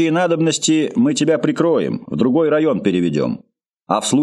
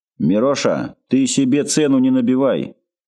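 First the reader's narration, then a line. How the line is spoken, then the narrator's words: Dry reply. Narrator (Russian): сухо ответил заместитель директора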